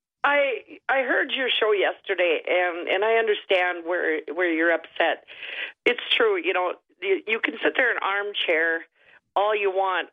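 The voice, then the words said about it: Hoarse voice. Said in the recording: “I'm sorry I'm a little hoarse”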